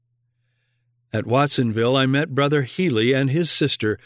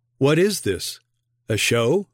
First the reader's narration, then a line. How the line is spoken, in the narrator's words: they asked